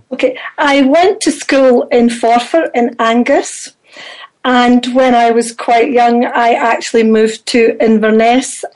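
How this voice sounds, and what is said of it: Scottish accent. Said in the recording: “You clearly have a Scottish accent.”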